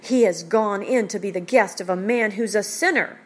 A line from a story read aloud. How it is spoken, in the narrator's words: the crowd, they all grumbled